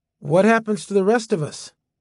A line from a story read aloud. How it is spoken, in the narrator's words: Talbot had smiled and sighed